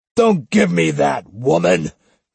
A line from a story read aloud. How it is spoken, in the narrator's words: he bellowed